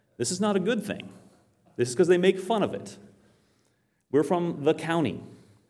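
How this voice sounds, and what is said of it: Rural Maine accent. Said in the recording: “So I'm from Maine. You might tell by my accent... I'm from a place in Maine called Aroostook County... they'll make fun of our accent, the way we say certain things”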